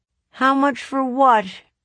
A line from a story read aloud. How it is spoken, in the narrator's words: I asked them sadly